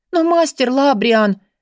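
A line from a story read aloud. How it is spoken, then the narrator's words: Pleading. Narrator (Russian): взмолилась Бри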